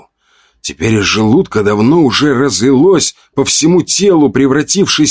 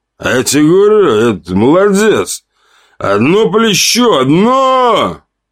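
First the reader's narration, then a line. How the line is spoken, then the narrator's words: Loud shout to group. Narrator (Russian): выкрикнул он, обращаясь ко всему столу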